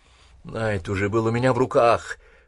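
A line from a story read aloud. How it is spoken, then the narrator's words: Muttering. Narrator (Russian): пробормотал Война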